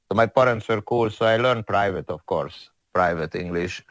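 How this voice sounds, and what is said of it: Strong foreign accent, vampire-like. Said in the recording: “my accent is so crazy ... you sound like a vampire”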